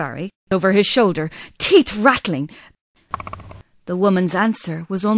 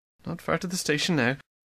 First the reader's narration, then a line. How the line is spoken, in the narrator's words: he muttered under his breath